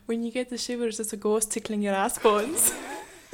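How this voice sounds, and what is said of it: Put-on Scottish accent. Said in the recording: “That was a Scottish accent.”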